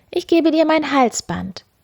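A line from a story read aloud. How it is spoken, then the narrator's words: Girl calling out. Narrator (German): rief die Müllers Tochter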